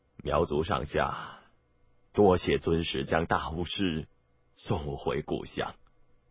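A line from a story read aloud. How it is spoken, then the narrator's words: Gloomy, low voice. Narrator (Chinese): 土马谷面色黯然，低声道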